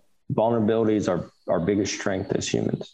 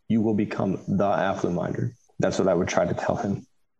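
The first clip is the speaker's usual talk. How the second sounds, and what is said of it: Emotional voice. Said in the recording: “I'm sorry, I got emotional.”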